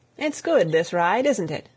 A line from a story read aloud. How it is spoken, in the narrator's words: Tom said presently